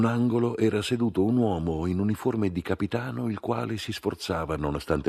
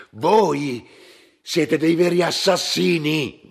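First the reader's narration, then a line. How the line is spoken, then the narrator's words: Shouted. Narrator (Italian): gridò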